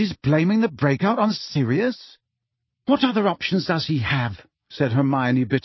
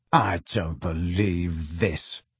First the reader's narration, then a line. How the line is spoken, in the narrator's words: snarled Harry